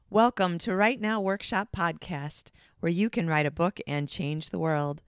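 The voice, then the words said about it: Sick-sounding voice. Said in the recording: “tell from my voice, I am quite sick”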